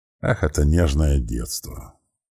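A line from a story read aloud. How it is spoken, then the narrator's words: Stern metallic voice. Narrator (Russian): посерьезнел и, добавив голос металла, строго произнес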